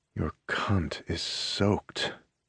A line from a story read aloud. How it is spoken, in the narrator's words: he rasps